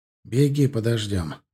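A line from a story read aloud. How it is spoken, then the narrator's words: Gruff mutter. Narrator (Russian): буркнул Сагдиев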